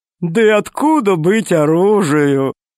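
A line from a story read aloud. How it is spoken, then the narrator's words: Laughing fat man. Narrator (Russian): засмеялся толстяк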